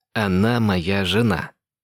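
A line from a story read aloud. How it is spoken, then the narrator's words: Growled. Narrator (Russian): прорычал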